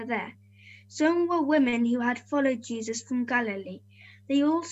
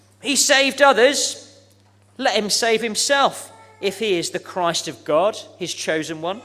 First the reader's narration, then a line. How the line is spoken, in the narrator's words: the soldiers mocked him, scoffed at him, saying